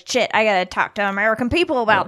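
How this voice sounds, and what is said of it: Imitates another person's voice. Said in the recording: “good impression of our president”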